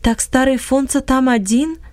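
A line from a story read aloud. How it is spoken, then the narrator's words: Plain. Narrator (Russian): спросил Иосиф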